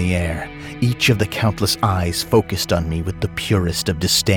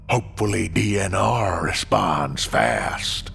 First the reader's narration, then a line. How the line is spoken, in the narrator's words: it said in a broken voice that echoed Scooter's drawl